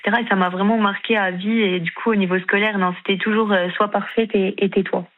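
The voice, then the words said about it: Slight eastern French regional accent. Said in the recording (French): “Vous avez un joli petit accent. ... c'était un petit accent de l'Est.”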